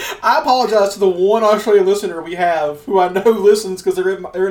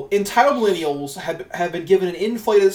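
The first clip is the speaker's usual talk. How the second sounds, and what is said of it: Poor put-on Australian accent. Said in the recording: “I need to read the entire article in Australian accent ... That's not even an Australian accent ... the worst voice ever”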